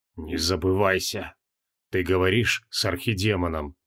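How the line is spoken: Faint creaky voice. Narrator (Russian): Он чуть слышно проскрипел

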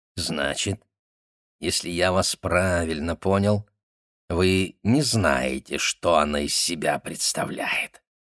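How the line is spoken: Surprised, normal voice. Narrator (Russian): От удивления он даже заговорил обычным голосом, не мурлыкая

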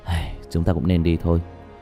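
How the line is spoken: Sighing. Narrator (Vietnamese): Diệp Thiếu Dương thở dài

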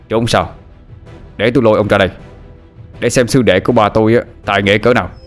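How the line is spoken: Shouted. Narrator (Vietnamese): Quý la lên

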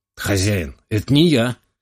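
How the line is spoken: Silent mental exclamation. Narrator (Russian): мысленно воскликнул

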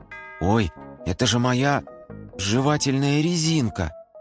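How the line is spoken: Angry grumble. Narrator (Russian): Нолик сердито буркнул

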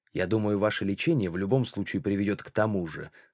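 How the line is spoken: Cold. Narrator (Russian): сказал он холодно

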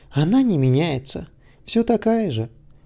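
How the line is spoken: Laughing, mock-plaintive. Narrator (Russian): Питер рассмеялся и притворно-жалобным тоном произнес

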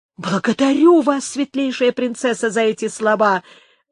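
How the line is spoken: Delighted exclamation. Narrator (Russian): воскликнул Изидор, щелкнув от восторга пальцами

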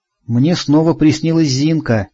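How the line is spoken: Quiet. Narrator (Russian): тихо сообщила Рита

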